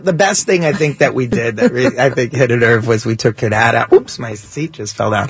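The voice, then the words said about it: Old Yiddish-English accent. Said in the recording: “I love that accent. ... It's a dying accent. ... Yiddish English is like the way it was.”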